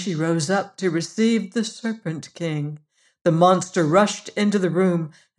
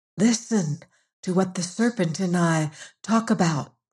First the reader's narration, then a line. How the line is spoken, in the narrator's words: whispered